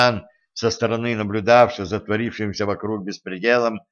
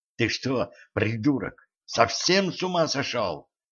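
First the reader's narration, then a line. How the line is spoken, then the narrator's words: Hissing woman. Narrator (Russian): прошипела она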